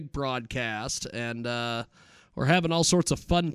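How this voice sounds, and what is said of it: Usual voice. Nothing is said of it.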